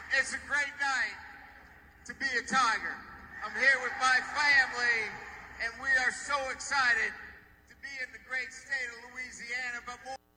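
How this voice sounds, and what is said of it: Phony put-on Southern accent. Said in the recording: “trying to do a southern accent here ... as phony as those Hollywood southern accents ... It's not good”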